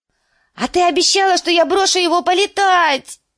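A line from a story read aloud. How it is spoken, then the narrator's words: Shrieking, trembling. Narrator (Russian): завопил лорд орлиного гнезда, начиная трястись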